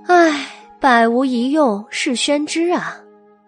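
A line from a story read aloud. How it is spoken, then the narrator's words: Sighing. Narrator (Chinese): 白姬摇头叹道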